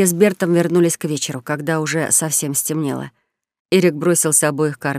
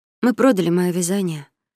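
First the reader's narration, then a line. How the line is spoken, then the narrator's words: Glum woman. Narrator (Russian): уныло произнесла непревзойденная мастерица графства Таури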